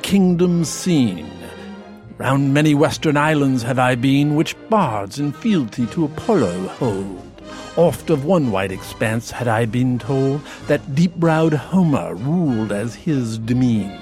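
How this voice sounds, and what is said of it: Put-on accent, theatrical recitation. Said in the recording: “an accent can actually change not only your mouth, but your whole body”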